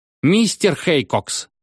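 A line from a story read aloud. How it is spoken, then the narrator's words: Barked. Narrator (Russian): рявкнул доктор Понт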